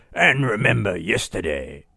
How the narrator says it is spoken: he bellowed

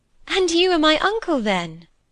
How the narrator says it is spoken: she cried

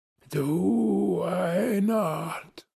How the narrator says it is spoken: he said, slowly, gasping, as if the words had been torn out of him by a supernatural power

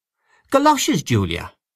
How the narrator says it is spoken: exclaimed her sister

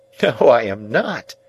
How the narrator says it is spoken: said Biddy, looking up and laughing

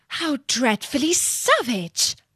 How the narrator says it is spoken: exclaimed Alice

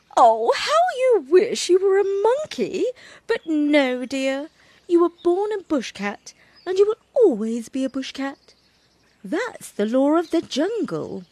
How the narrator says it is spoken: Mother Bushcat laughed and said

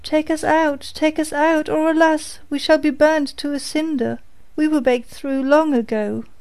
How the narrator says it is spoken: cried the loaves as before

